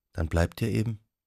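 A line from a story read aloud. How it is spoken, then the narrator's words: Quiet. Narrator (German): sagte sie leise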